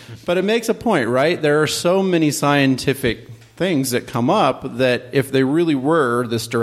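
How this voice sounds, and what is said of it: Usual voice. Nothing is said of it.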